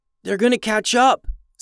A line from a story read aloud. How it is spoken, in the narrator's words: said Shai between breaths